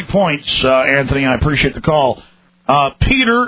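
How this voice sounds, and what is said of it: Usual voice. Nothing is said of it.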